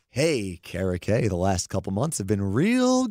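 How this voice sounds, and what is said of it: Smooth jazz radio DJ voice. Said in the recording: “My smooth jazz radio voice”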